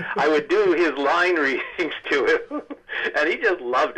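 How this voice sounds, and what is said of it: Usual voice. Nothing is said of it.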